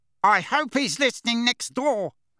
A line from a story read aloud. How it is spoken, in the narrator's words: bellowed Uncle Vernon